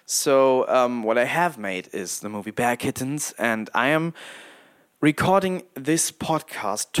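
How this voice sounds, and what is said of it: Non-native English accent. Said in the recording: “cringing at my own terrible my, my, my accent, my pronunciation”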